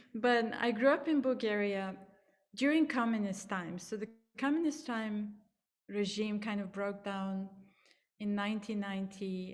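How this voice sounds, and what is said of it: Bulgarian accent. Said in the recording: “I grew up in Bulgaria, so that's my accent”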